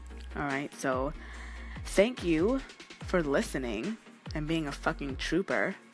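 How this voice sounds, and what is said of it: Sick, rough-sounding voice. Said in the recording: “I know my voice sounds a little crazy. I'm a little under the weather”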